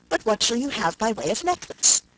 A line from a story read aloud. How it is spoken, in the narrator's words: said Miss Crawford